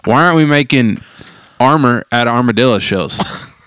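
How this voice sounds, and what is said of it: Exaggerated East Tennessee accent. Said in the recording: “the most like East Tennessee thing that's ever come out of my mouth. And I bet my accent changed when I said it.”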